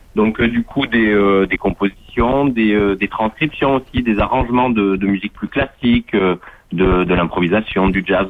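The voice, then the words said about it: Slight southern French accent. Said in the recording (French): “Vous avez un petit accent... Vous êtes Vous du sud”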